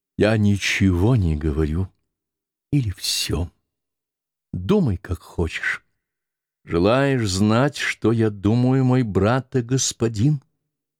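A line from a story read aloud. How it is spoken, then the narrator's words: Muffled quiet voice. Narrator (Russian): Голос ее зазвучал глухо и тихо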